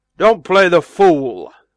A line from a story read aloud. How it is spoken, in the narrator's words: said Barnes crossly